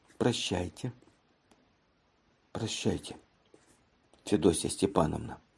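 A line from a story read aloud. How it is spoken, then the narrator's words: Quiet speech. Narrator (Russian): она тихо сказала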